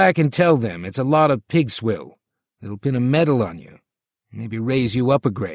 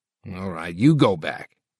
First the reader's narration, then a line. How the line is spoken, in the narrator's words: Tolby grunted